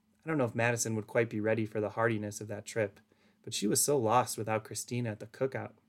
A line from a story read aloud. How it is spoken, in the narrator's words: Hope sighed